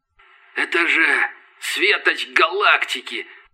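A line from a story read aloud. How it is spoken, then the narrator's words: Scavenger's whisper. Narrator (Russian): прошептал падальщик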